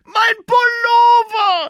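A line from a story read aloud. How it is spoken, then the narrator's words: Shouting, starting to cry. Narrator (German): schreit Jonas, und jetzt fängt er doch noch an zu heulen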